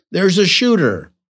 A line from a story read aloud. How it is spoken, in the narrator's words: a co-worker who shouted